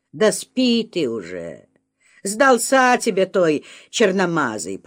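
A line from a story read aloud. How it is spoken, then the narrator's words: Grumbling husband. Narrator (Russian): пробурчал муж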